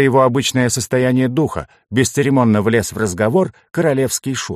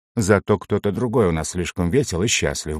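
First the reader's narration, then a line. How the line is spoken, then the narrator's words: Grumble. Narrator (Russian): буркнул я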